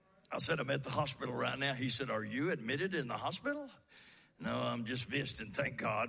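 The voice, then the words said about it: Rusty, rough-sounding voice. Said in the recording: “my voice is a little rusty ... You sound kind of rough.”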